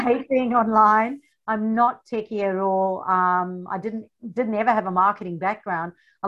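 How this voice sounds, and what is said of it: South African accent. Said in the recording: “You have an accent like I do... so yes, the funny accent. I come from South Africa”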